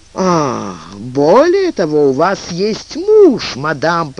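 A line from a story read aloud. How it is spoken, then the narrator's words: Booming. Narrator (Russian): прогремел маркиз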